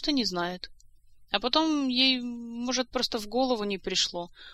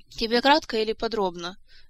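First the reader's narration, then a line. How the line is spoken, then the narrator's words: Weary sigh. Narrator (Russian): Снова вздохнула Ольга, которая уже 40 раз пересказывала эту историю и успела приобрести к ней чуть ли не аллергию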